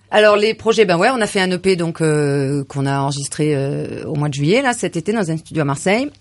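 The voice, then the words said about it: Regional local French accent. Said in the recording (French): “elle a l'accent de chez nous, alors ça va. Qui ressemble quand même bien de chez nous.”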